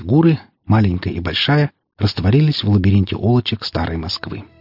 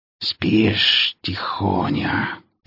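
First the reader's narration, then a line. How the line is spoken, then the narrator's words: Hissing over the phone. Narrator (Russian): прошипели в трубку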